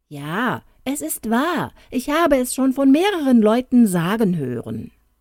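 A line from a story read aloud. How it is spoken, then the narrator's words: Exclaiming. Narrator (German): Der zweite, diesem ähnlich, rief aus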